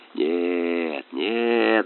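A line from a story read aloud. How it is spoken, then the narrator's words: Mumbling while chewing. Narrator (Russian): бормотал капитан, чмокая и хрустя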